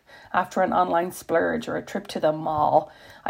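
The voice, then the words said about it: Valley Girl accent. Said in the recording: “I cannot say the word mall without putting on my best Valley Girl accent”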